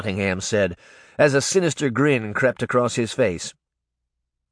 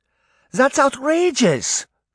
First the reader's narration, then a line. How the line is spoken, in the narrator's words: Granny Relda cried